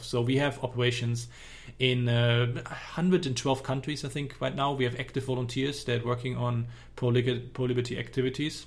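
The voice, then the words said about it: German accent in English. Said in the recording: “I don't have a Texan accent. My accent is from Germany”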